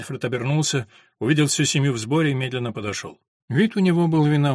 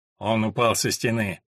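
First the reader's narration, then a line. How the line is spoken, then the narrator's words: Sullen grumble. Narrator (Russian): угрюмо пробурчал Альфред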